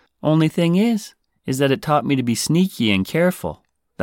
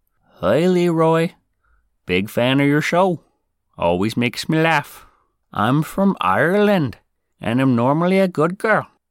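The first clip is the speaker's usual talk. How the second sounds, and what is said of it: Weak attempt at Irish accent. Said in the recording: “Sorry, I can't do an Irish accent.”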